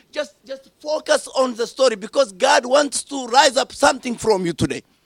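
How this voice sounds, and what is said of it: Strong accent, hard to follow. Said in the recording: “my accent is a little bit difficult for you”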